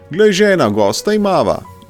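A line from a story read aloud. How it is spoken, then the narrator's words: Joyful man calling out. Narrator (Slovenian): je zaklical mož z praga ves vesel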